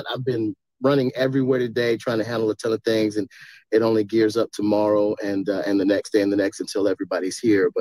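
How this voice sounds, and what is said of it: Hoarse, worn-out voice. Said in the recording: “My voice is shot.”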